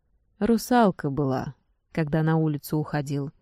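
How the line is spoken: Glum. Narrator (Russian): уныло сказал парень

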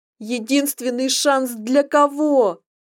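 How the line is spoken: Near shriek, dreadful sound. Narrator (Russian): Я почти завизжала, не узнавая в этом жутком звуке ту женщину, которой была

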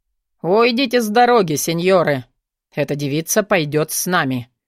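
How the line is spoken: Menacing man's declaration. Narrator (Russian): Вновь заявил грозно мужчина в черном

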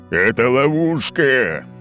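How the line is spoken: Roaring. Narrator (Russian): взревел Олимпий

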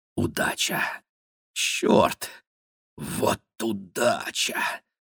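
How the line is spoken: Whisper. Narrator (Russian): шептал Гарин

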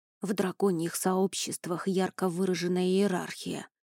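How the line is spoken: Hissing whisper. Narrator (Russian): свистящим шепотом пояснил Рони

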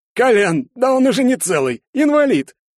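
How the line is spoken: Laughing. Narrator (Russian): Парочка засмеялась

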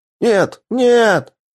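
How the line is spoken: Yell. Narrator (Russian): заорал Грегор

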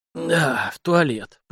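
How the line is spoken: Distracted hoarse wheeze. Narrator (Russian): прохрипел Сашка, даже не отдавая себе отчета, с кем говорит

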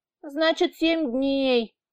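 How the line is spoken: Child's sigh. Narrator (Russian): вздохнул малыш

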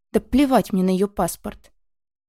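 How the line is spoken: Angry, no longer growling. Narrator (Russian): Он все еще злится, но голос уже без медвежьих рычащих нот

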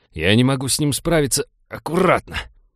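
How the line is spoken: Growled. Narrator (Russian): прорычал Винни

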